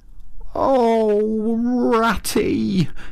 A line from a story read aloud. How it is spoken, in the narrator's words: he cried in despair, with tears impending